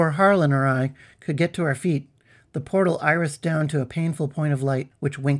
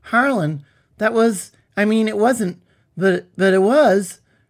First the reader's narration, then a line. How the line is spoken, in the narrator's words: I stammered